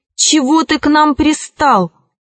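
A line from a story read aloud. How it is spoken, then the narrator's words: Loud snorting rhinoceros. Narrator (Russian): Носорог громко фыркнул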